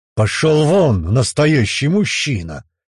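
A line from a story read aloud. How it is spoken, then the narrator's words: Murderous angry growl. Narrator (Russian): прорычал Мчарик, чувствуя, что желание убить своего ставленника опять поднимается в нем тяжелой волной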